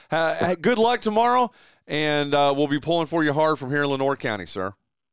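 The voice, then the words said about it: Hoarse, fading voice. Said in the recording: “Sorry, I'm losing my voice here”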